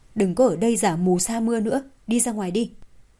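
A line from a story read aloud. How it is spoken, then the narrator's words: Cold voice. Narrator (Vietnamese): Mạc Cẩm Vân lạnh lùng nói với Hạ Diệp Chi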